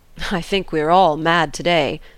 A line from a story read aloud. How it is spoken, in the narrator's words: said I, affecting to laugh